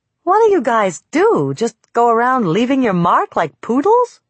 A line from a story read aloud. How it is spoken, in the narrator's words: I exclaimed